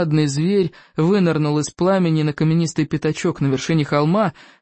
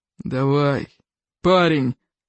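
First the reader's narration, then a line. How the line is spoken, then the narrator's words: Loud-voiced grumble. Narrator (Russian): проворчал Плевака крикливый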